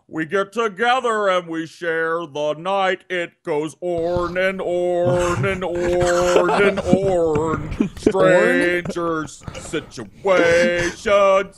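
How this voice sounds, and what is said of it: Imitates another person's voice. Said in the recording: “do an impression ... this is Brett Keane saying on ... he says orn”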